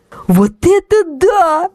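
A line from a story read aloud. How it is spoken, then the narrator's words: Overwhelmed excited exclamation. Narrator (Russian): воскликнула Ксюша, не в силах сдерживать эмоций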